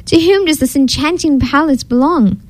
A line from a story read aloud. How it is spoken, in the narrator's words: the king called out